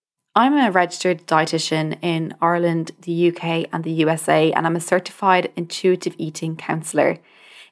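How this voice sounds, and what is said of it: Irish accent, somewhat mixed. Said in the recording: “You may have guessed from the accent, I am Irish ... my accent is a bit all over the place.”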